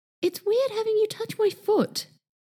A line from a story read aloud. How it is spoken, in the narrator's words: Martin finally cried